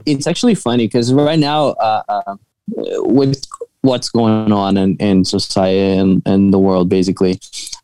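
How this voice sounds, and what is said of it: Brazilian accent, partly Boston. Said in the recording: “this Brazilian with a half Boston accent”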